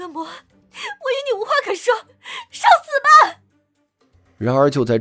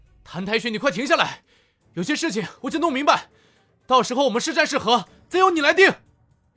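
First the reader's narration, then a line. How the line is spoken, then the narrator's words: Urgent shout. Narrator (Chinese): 陈南急忙同时喝道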